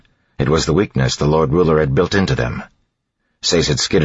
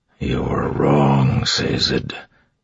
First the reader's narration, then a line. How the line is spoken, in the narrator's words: Marsh said quietly